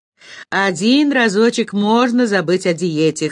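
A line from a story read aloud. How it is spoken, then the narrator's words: Snorting chuckle. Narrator (Russian): хмыкнул Борис Львович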